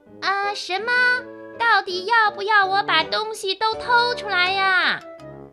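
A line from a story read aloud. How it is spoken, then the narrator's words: Shouted. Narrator (Chinese): 小拇指的叫声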